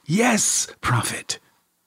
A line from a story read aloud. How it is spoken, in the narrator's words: whispered